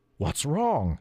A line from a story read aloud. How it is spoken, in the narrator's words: croaked